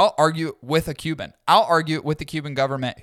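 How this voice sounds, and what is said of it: Usual voice. Nothing is said of it.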